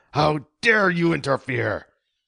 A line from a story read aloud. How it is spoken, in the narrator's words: he yelled